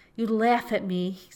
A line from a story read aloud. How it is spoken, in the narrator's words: said he, laughing himself